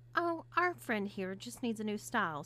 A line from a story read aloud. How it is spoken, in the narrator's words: stated Julie calmly